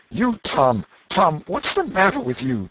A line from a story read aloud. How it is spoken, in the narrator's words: she gasped out